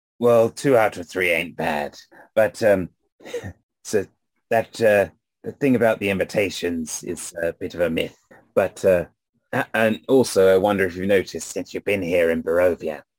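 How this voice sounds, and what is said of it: Raspy character voice. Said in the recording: “it hurts me to speak after a while. Got this raspy voice.”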